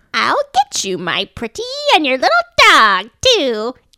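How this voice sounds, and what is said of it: Wizard of Oz witch impression. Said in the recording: “my impression of the witch from The Wizard of Oz ... that was pretty good”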